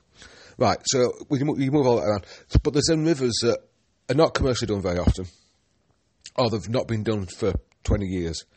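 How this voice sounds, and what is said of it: Slightly hoarse, croaky throat. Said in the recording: “I've got a bit of a frog in my throat.”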